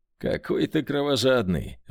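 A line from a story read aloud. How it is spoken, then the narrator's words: Laughing. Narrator (Russian): рассмеялся Борис Дорохов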